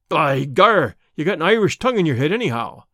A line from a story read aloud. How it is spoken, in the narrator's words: cried the saloon keeper, not quite certain whether to humor this audacious visitor or to stand upon his dignity